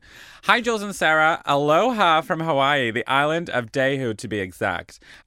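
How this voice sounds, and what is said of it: Weak put-on American Valley girl accent. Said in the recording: “I don't know how to do a Hawaiian accent, so I'm going to go with this weird American accent... a sort of LA Valley girl... my American accent kind of just sucks”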